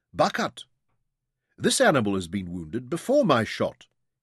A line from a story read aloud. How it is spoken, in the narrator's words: called sharply